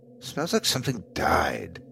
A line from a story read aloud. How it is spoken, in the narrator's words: muttered to myself